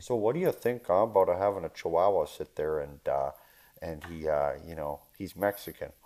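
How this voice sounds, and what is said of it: Put-on Michigan accent. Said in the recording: “Let me put on my best Michiganer accent.”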